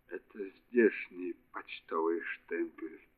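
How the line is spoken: Quiet. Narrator (Russian): тихо проговорила

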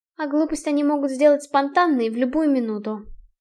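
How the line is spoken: Sighing. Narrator (Russian): вздохнула Альда

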